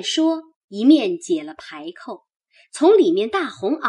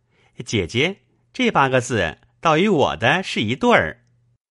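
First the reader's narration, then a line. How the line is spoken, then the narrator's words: Laughing. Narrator (Chinese): 宝玉因笑道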